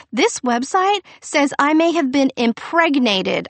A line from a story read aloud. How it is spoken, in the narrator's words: I yell at Victor